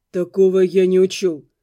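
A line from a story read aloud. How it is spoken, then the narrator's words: Muffled, hollow. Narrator (Russian): глухо сказал он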